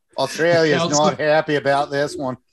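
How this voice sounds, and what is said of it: Muddled attempt at Australian accent. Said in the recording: “I don't even know what accent that was. That dissolved into like a Foster's giant can of beer.”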